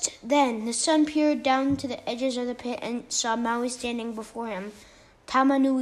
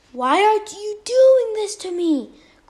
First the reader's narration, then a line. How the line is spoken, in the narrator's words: cried Tama Nui Tera